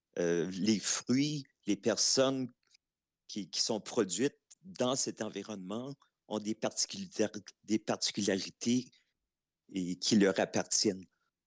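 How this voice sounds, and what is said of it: Regional Canadian French accent. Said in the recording (French): “on le parle un peu différemment. On a notre accent, c'est sûr qu'il y a des influences euh, de la communauté anglophone.”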